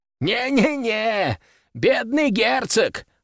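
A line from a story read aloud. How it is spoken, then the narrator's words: Loud laughter. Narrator (Russian): расхохотался коллекционер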